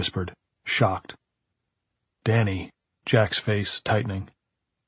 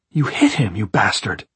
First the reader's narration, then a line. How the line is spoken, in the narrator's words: Wendy cried